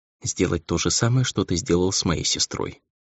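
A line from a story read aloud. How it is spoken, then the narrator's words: Whispered. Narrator (Russian): закончила Нельга шепотом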